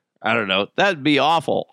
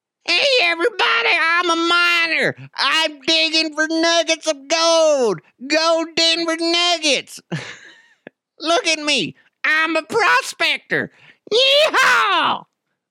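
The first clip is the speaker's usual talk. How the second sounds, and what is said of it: Cartoonish prospector mascot voice. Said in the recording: “what would that mascot sound like? ... That's not that good of an impression ... I kind of stole that voice from Will Ferrell”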